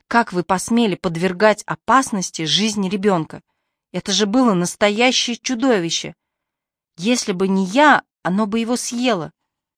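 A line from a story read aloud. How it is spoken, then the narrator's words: Furious hiss. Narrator (Russian): яростно зашипела Мари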